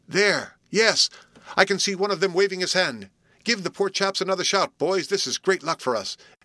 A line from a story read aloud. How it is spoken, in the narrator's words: exclaimed Frank, and his own sturdy voice helped to swell the sound that rolled over the water